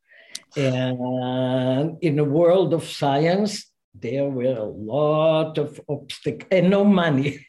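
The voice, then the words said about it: Non-American foreign accent. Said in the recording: “I don't have an American accent ... from where are you with this accent?”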